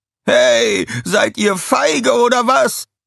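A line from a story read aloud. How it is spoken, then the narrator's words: Called out. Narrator (German): rief der Hüter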